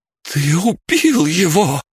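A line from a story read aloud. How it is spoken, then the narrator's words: Horrified exclamation. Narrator (Russian): с ужасом воскликнула Бригитта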